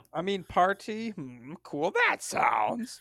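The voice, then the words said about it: Poor Yoda-style character voice. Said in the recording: “Your Yoda impersonation is just terrible. ... It's like a B Yoda. It's not my A Yoda. It's my B Yoda.”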